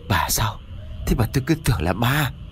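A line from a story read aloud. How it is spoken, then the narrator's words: Shaken, breathless. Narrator (Vietnamese): Ông Chánh tâm thần vẫn bấn loạn, thở hổn hển một lúc rồi mới cất tiếng nói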